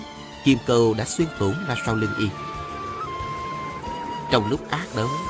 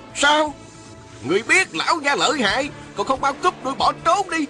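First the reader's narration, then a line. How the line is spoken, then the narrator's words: Rough voice scolding. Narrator (Vietnamese): Một giọng thô lỗ quát mắng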